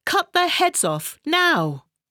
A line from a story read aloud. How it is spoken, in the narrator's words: she shouted to her soldiers